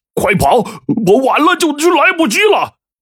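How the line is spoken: Frightened shouting. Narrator (Chinese): 他们惊恐的大喊着

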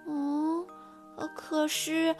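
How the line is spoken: Sad and quiet. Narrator (Chinese): 菲尔又难过了，小声地说

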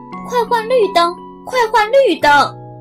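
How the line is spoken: Honking, shouting together. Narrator (Chinese): 汽车们使劲儿按着喇叭，一起叫起来

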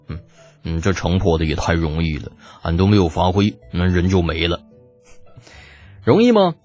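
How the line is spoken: Calm, indifferent. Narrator (Chinese): 李浩淡淡的说道

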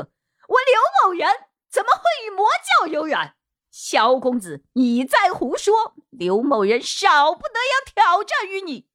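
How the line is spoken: Angry loud shout. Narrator (Chinese): 柳青行变了脸色，声音提高了八度，大喝

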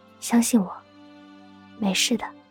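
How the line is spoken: Soft whisper in ear. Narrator (Chinese): 叶帆在他耳边轻声道

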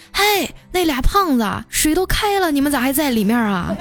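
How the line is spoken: Old woman calling out. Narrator (Chinese): 那奶奶呀，对我喊

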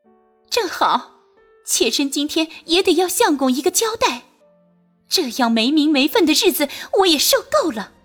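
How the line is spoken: Sneering. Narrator (Chinese): 冷笑着道

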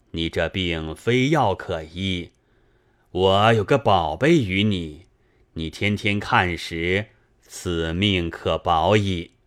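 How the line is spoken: Sighing. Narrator (Chinese): 那道士叹道

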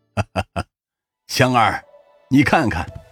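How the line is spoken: Sigh then laughing. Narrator (Chinese): 刘奇峰看出了父女两人的尴尬，叹了一口气，紧接着他 笑道

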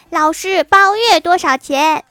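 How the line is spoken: Loud voice. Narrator (Chinese): 大声说

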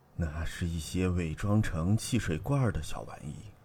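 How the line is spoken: Trembling voice. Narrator (Chinese): 于永义颤声的说

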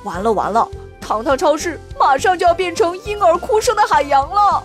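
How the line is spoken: Low voice. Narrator (Chinese): Kevin 低声说道

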